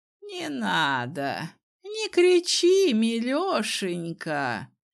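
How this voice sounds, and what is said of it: Lisping cooing old man's voice. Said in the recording (Russian): “просюсюкал старый хрыч”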